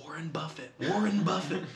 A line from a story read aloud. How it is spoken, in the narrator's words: my dad whispers in this kid's ear, he goes